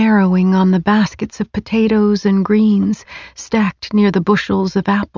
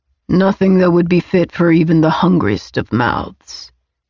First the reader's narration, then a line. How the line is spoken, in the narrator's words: Orlando replied gruffly